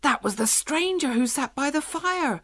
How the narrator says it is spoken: cried Fennel

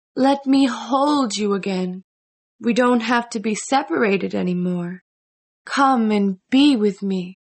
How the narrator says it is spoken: she said in a sweet voice

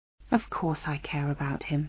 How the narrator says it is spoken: Anna said softly

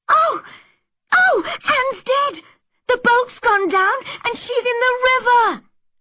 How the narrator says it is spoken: they screamed

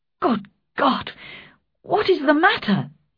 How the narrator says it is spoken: cried

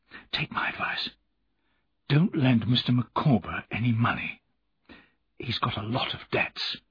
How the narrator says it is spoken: I whispered

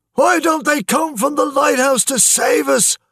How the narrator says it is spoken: shouted James Kelly

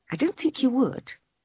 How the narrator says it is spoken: answered Helen quietly

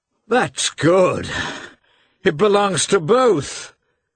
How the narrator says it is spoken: cried Levin

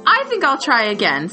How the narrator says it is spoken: said Wilbur cheerfully

